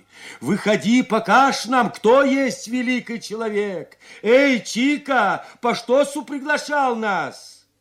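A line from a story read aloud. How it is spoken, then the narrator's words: Shouting from street. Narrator (Russian): С улицы под окнами кричали вновь пришедшие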